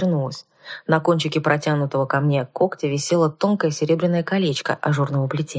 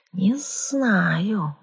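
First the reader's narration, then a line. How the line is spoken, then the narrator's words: Thoughtful dragon hiss. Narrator (Russian): задумчиво прошипел дракон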